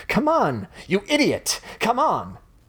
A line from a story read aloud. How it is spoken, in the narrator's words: shouting